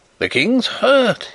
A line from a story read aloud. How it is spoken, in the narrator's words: he cried